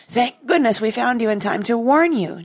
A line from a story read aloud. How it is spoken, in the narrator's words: Jane cried